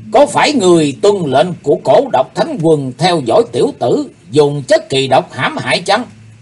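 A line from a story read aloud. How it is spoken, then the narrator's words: Roaring accusation. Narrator (Vietnamese): Ông ta gầm lên bảo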